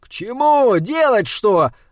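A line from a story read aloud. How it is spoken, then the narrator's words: Yelling. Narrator (Russian): заорал Саймон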